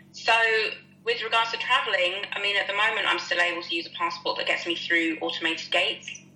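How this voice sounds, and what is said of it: British accent. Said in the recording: “speaking to you with a British accent”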